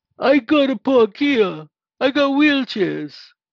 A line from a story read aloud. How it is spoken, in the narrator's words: Full of self-importance, bellowed in the most mellifluous Brooklynese